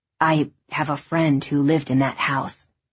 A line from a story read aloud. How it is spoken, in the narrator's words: he said quietly